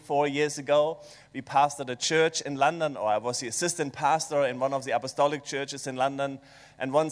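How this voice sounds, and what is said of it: German accent. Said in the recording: “this German accent”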